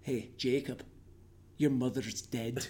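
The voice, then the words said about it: Put-on Scottish accent. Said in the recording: “everything's funny with a Scottish accent ... you sound like William Wallace”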